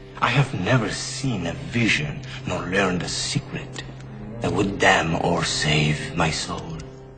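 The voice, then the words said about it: Spanish-accented English, Antonio Banderas. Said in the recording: “Sometimes an accent can render a language sexy, even elegant. Perhaps when native Spanish speaker Antonio Banderas holds forth in English.”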